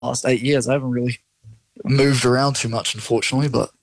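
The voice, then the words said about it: New Zealand accent. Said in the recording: “you haven't picked up the accent, which is fantastic. You're still a Kiwi.”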